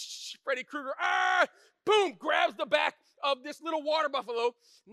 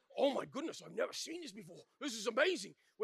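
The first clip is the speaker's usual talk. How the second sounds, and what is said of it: Put-on South African accent. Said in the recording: “my South African accent's kind of like Australian mixed with German, kind of work with me”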